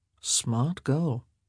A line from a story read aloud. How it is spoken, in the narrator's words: he murmured